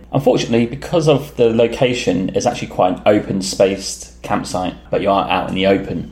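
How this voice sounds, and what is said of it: British accent. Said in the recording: “we came from UK based on the accent”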